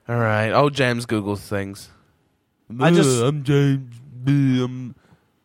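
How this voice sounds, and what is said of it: Good impression of a friend. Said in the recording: “That's a good impression.”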